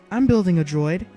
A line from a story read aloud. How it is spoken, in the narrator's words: Anakin announced quickly, anxious to show Padme his project